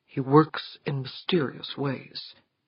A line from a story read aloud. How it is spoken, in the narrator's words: replied softly